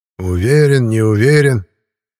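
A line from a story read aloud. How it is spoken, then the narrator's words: Grumbled. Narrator (Russian): Пробурчал наконец Никодим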